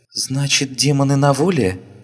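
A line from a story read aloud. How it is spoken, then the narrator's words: Frightened girl's reply. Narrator (Russian): испуганно отозвалась девочка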